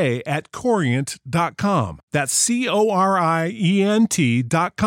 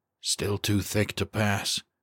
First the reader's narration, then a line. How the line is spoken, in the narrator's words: Kowalski whispered